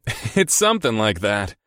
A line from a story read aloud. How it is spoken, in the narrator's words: I chuckled